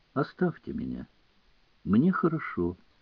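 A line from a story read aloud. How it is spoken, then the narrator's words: Quiet and meek. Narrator (Russian): Он повторял тихо и кротко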